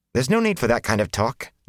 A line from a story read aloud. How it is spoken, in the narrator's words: Nynaeve said sharply